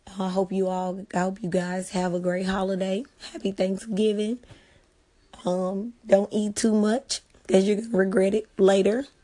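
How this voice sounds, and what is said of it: Hoarse voice. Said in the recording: “I am a bit hoarse”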